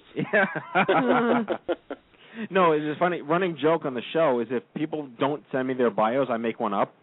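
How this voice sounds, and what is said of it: New York accent, mushy blended words. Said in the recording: “sometimes you say a lot of stuff all at once, and it sounds like a mush ... A hodgepodge of words blended together ... I think it's called New York ... It's my accent and my lack of saliva.”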